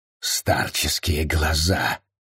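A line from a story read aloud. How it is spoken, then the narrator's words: Annoyed grumble. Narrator (Russian): с досадой проворчал он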